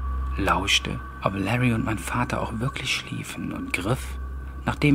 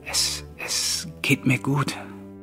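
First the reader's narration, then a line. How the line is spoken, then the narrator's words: Terrified stammering reply. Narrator (German): antwortete mein Vater tödlich erschrocken und fügte stotternd hinzu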